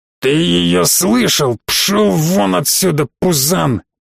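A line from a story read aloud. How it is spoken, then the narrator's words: Burly man growling. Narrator (Russian): прорычал на меня здоровяк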